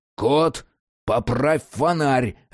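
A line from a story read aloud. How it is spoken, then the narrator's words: Bark. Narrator (Russian): рявкнул Джек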